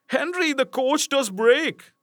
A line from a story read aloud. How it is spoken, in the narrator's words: he turned around and cried